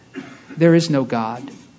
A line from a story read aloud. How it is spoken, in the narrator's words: Slowly and gravely, human reason repeated